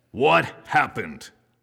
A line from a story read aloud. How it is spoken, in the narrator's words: Christopher bellowed